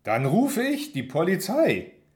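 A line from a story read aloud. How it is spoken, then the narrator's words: Very loud, voice cracking. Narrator (German): sage sehr laut und meine Stimme überschlägt sich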